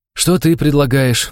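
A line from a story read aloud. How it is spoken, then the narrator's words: Tired sigh. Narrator (Russian): устало выдохнул я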